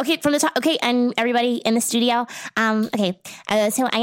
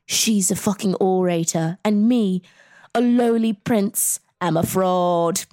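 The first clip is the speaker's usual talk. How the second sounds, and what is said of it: Imitates another person's voice. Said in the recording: “I thought you were going to do it in an accent... I think that was good”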